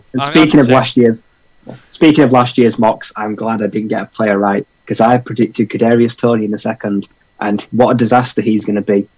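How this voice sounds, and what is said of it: British accent. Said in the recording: “British speakers sound incredibly smart ... my accent”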